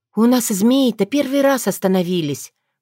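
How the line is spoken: Sighing. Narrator (Russian): вздохнула Таня

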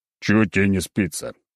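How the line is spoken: Irritated sleepy growl. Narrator (Russian): раздраженно прорычал я, разлепляя глаза

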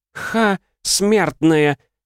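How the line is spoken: Mocking laugh from above. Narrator (Russian): смеялась краснокожая бестия, зависнув над нами в десятки дзё

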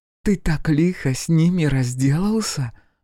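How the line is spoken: Admiring, breathless. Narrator (Russian): восхищенно выдохнула Хелена

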